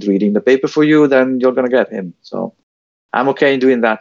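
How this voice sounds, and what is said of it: Strong, unusual-sounding accent. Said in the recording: “My accent will be probably distracting ... the weird guy with the strange accent”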